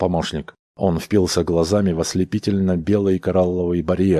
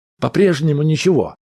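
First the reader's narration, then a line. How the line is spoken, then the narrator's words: Shout. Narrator (Russian): крикнул он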